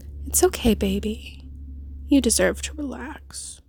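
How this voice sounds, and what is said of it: Sexy whispering voice. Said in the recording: “My sexy voice whispering in your ears like this.”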